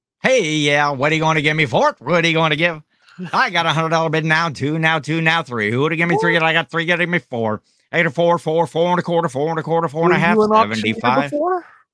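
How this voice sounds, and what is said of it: Rapid auctioneer chant. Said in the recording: “do a good auctioneer impression? ... I didn't know you were that good at being an”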